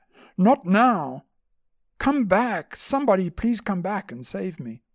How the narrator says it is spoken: cried out

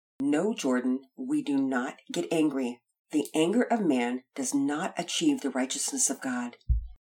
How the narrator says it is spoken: in a calm but firm voice reminded him

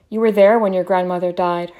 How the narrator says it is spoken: her mother said

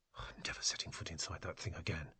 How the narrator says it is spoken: she muttered

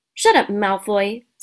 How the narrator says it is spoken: snapped Parvati Patil

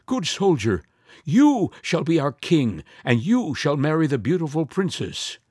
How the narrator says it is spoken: the soldiers and all the people were afraid and cried

